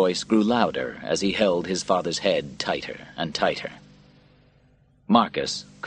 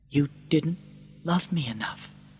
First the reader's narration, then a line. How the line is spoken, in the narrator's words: he said softly